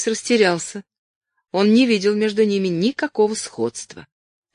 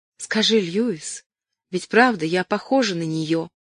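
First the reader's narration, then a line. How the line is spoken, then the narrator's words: Childlike lisping whisper. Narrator (Russian): спросила, по-детски пришептывая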